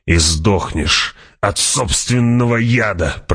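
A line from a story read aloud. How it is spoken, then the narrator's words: Growling. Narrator (Russian): прорычал раб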